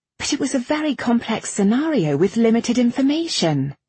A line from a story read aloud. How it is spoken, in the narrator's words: Irene blurted out